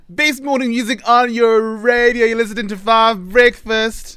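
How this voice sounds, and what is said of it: Whiny East Coast kid voice. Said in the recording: “You literally made me sound like a whiny kid from the East Coast.”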